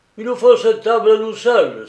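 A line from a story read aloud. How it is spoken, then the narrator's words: Exclaiming, banging table. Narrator (French): s'écria le grand brun en frappant sur la table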